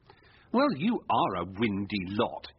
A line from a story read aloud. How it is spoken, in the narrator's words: he said scornfully